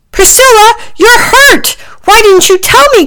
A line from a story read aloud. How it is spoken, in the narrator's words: cried Packy